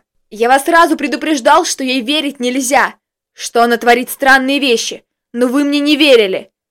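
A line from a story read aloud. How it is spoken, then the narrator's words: Full-voiced yelling. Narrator (Russian): Во весь голос орал Костик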